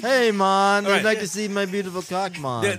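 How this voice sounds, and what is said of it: Put-on Jamaican accent. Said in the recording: “Jamaican accent”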